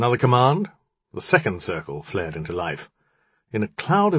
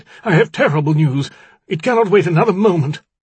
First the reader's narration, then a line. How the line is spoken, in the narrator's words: it cried